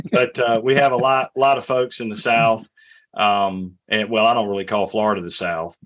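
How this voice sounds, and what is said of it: Heavy northeastern US accent. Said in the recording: “this heavy, northern accent I have”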